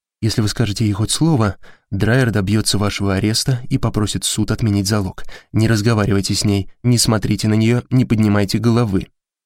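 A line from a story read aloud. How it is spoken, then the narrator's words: Plain. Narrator (Russian): сказала Кейт Александре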